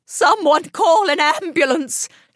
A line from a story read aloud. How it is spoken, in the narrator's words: shouted Mrs